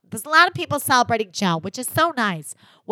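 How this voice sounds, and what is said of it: Nasal imitation of another's voice. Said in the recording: “I'm trying to get her nasality down better. I think I'm going to plug. ... plugging my nose really helped with my Margaret impression.”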